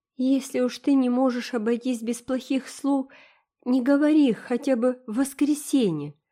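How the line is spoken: Pleading. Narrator (Russian): взмолилась Дора

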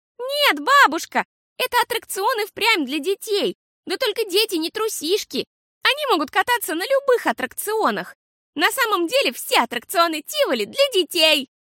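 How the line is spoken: Shouting. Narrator (Russian): кричала Фиасоль

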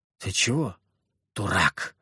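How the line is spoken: Quiet, muffled against chest. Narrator (Russian): тихо произнесла Мальвина, вжимая лицо мне в грудь

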